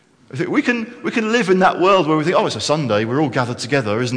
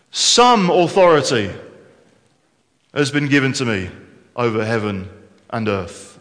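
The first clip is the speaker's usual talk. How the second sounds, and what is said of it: Big loud booming voice. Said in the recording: “in a big loud voice”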